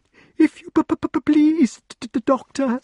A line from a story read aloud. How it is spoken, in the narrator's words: stammered the poor creature, gabbling so that they could scarcely understand what it said